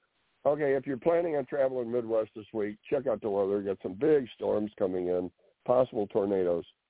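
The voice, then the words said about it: Hoarse, fading voice. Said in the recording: “looks like I'm losing my voice.”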